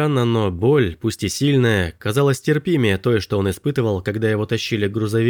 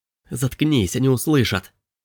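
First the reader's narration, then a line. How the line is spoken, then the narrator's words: Urgent hiss. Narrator (Russian): Прошипел Робби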